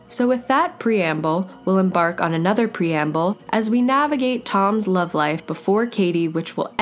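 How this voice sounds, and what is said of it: Usual voice. Nothing is said of it.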